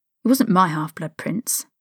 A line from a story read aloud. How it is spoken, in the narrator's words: Harry muttered